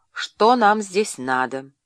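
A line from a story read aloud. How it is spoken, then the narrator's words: Rough question, old man. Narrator (Russian): старый евнух и грубо спросил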